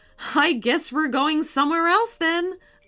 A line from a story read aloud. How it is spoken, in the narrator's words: laughed MJ's mom